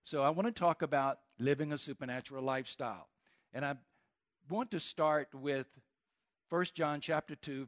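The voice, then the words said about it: Southern American accent. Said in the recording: “my accent is a little bit different than yours ... my southern accent”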